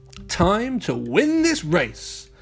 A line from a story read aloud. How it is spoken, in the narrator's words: Mayor Goodway shouted